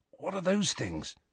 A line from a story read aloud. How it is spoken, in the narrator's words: whispered Ron